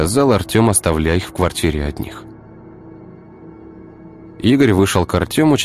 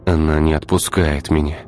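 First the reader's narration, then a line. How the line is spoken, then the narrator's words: Sighing. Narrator (Russian): вздохнул Игорь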